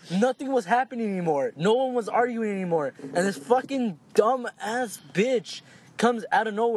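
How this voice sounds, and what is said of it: Usual voice. Nothing is said of it.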